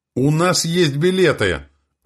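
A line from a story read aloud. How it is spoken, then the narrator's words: Desperate shout. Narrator (Russian): выкрикнул Матвей Егорыч, понимая, что сейчас он, как и рюкзак, будет выброшен на обочину жизни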